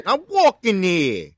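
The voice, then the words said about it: Put-on New York accent. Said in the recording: “Got a New York accent.”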